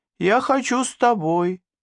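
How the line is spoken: Thin squeaky voice. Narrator (Russian): тонким голоском пропищала она

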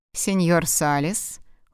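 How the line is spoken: Cold. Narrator (Russian): холодно сказала

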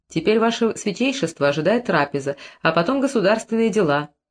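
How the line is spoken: Plain. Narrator (Russian): ответил Херихор

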